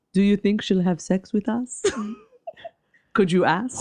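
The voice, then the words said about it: Put-on French accent. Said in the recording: “my really good French impression.”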